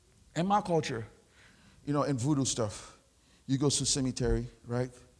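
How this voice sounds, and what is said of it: Haitian accent. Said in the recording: “because I'm Haitian ... I have an accent. I speak French.”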